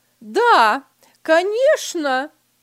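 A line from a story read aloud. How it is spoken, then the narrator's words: Wife calling after. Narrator (Russian): крикнула ему вслед жена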